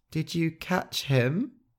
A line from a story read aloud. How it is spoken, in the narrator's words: Gentle said, his voice shaking